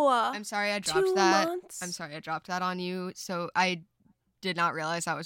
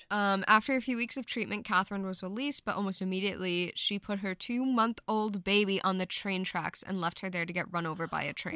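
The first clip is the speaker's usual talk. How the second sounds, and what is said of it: Reading very fast. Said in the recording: “read it so fast”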